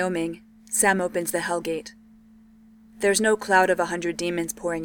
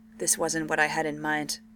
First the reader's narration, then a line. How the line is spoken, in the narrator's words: Sam muttered to himself